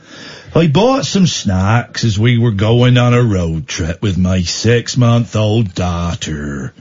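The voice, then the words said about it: Put-on Somerset accent. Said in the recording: “I'm going to do an accent here... Somerset. Somerset.”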